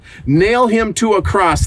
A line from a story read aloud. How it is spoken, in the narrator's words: they yelled even louder